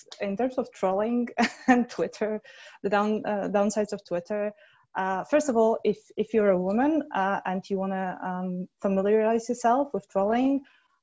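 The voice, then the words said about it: Foreign accent. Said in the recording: “I'm also foreign, and I have the wrong kind of accent.”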